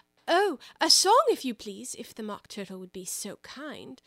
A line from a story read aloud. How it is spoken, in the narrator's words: Alice replied so eagerly